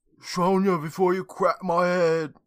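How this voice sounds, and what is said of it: Poor attempt at Australian accent. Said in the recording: “Oh, that's not the right accent... I can't do an Australian accent.”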